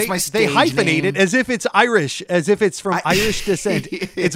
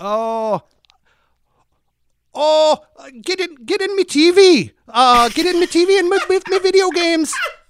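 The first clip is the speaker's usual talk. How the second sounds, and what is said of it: Put-on Irish accent. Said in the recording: “Give me an Irish accent. I'm not letting you move forward until you give me the name Brian Oblivion in an Irish accent. ... That was brilliant.”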